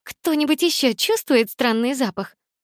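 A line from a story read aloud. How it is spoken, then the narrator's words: Loud question, laughing. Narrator (Russian): громко спросила она и рассмеялась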